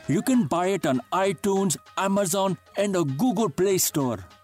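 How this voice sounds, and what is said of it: Put-on Indian accent. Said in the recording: “a fairly decent Indian accent. That's pretty fantastic.”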